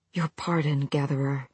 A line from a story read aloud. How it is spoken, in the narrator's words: he murmured against the stone